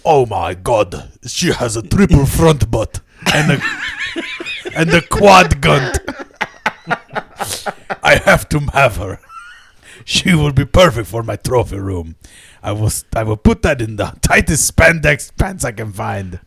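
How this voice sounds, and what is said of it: Put-on accent, slipping badly. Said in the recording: “did that accent go to shit already?”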